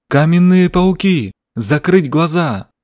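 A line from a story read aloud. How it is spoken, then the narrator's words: Sudden loud shout. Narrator (Russian): Ингун вдруг громко закричал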